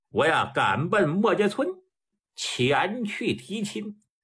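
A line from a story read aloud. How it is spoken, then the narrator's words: Laughing. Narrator (Chinese): 吕佛一笑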